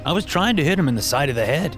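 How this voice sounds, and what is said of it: Defensive New England accent. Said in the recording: “said in a New England accent, his tone defensive.”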